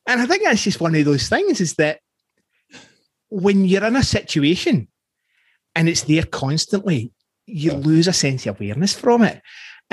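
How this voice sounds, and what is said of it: Scottish accent. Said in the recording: “he sounds Scottish. What? I don't sound Scottish? ... that's what my accent is”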